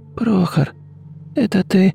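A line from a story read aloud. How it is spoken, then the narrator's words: Weak voice. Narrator (Russian): слабым голосом отозвалась Дарья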